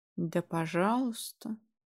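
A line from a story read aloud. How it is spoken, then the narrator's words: Indifferent, lazy. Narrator (Russian): Все так же безразлично и даже лениво высказал свое отношение к ситуации блондин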